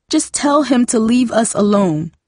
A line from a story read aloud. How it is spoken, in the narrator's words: Darcy sobbed